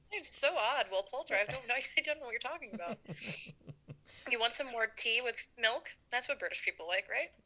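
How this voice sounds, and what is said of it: Weird put-on British accent. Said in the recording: “my weird British accent”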